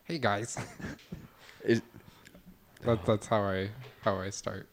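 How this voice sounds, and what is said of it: Put-on white guy voice. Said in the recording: “putting on his white guy voice”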